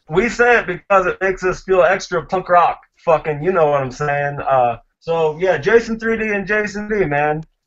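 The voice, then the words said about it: Northeastern New Jersey accent. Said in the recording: “do I detect accents? Is it a southern accent or is that a South Jersey accent? ... It's more like a northern Jersey. ... Northeastern Jersey-esque.”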